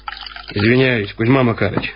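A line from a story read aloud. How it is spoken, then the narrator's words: Plain. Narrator (Russian): сказал капитан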